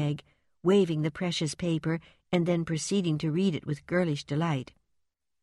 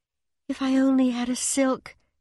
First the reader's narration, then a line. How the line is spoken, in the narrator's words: sighed Meg